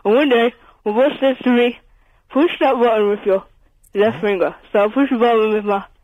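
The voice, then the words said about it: Poor impression of a comedy character. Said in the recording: “Are you about to tell us a filthy joke, Mr. Bean? ... that's the most rubbish impersonation...”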